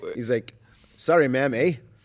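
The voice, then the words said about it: Put-on Canadian accent. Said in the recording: “He's so Canadian. Did you notice that when I said that to you?”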